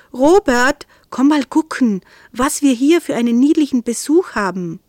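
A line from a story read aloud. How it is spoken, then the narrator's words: Called out. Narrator (German): rief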